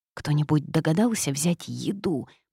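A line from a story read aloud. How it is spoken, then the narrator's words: Whisper from a pocket. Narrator (Russian): прошептала из кармана Васька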